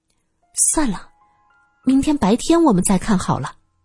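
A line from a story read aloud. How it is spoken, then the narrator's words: Soft, quiet voice. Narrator (Chinese): 董佩小声说道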